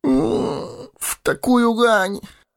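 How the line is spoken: Sleepy groan. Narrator (Russian): простонал хоббит

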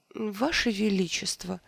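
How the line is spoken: Hesitant. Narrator (Russian): неуверенно начал кролик

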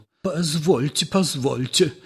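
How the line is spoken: Babbling, flustered. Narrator (Russian): лепетал Ипполит Матвеевич

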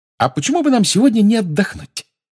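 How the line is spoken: Cheerful. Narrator (Russian): весело сказала Гермиона

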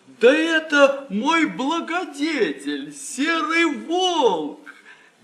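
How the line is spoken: Shouting. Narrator (Russian): Иван-царевич закричал

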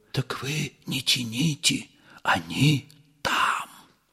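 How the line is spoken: Whispered. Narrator (Russian): Ипполит Матвеевич шепнул Бендеру

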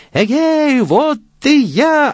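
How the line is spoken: Shouting again. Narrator (Russian): опять закричал Ганс Чурбан

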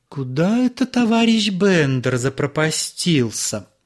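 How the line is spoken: Thin high voice. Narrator (Russian): сказала она тоненьким голосом

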